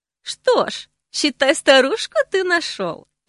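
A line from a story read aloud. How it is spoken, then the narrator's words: Snide smirking tone. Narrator (Russian): ехидно усмехнулась собеседница Ордаля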